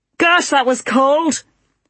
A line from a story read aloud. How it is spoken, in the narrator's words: he shouted